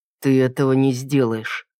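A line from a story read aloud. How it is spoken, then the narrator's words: Through gritted teeth. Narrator (Russian): процедил сквозь зубы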